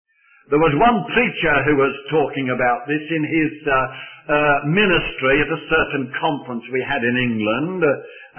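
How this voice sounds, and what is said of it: Birmingham Brummie English accent. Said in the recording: “I come from Birmingham and can't help to do it ... It's a sort of our way of speaking ... my twang, my Brummagem twang,”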